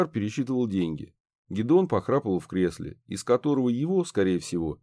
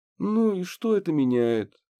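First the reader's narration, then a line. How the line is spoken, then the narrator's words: Lazy drawl. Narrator (Russian): лениво протянула Банши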